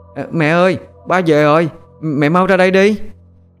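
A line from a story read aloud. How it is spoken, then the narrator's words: Joyful loud call. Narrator (Vietnamese): Thằng Tý mừng rỡ lớn tiếng gọi mẹ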